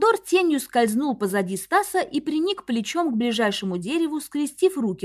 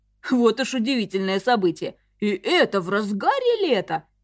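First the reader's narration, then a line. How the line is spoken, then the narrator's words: Chuckling. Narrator (Russian): хохотнул Артур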